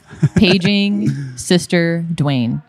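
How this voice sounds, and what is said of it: Overhead paging announcement voice. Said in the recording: “a pretty good, probably... impersonation of what it might sound like ... overhead pages”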